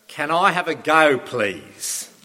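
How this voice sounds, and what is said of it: Bad put-on Australian accent. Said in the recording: “Forgive me if that's a really bad Aussie accent.”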